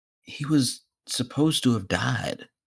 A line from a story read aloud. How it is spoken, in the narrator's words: Toshinori whispers